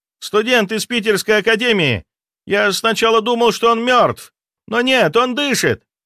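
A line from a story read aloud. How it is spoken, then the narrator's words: Excited shout. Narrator (Russian): восторженно выкрикнул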